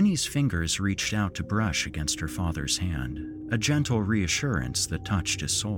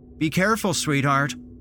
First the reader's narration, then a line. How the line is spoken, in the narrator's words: Mark called out, his voice filled with a blend of concern and desperation